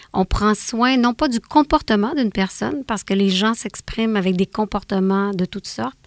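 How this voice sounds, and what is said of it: Canadian French accent. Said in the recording (French): “on a entendu depuis votre accent ... vous venez tout droit du Canada”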